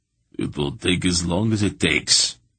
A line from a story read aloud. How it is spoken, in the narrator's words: he said in his harsh voice